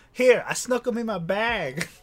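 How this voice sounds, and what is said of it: Put-on Boston accent. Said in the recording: “your Boston accent's fucking glorious... It's just as good as anybody's that's actually in this fucking movie”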